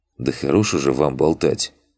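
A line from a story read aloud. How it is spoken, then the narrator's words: Sighing. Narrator (Russian): вздохнул Макс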